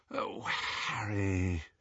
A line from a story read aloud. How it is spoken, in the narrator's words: she said wearily